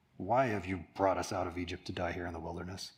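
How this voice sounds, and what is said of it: Whiny, grumbling character voice. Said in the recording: “I did a voice there, because I was trying to make them whiny. They're grumbling.”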